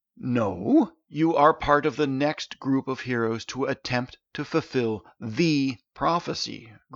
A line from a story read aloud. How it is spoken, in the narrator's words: groaned Artish